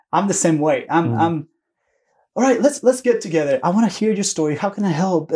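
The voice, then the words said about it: Noticeable accent. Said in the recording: “a guy with this accent”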